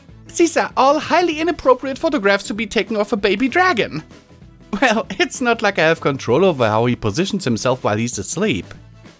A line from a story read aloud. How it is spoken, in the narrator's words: Starlight said with a giggle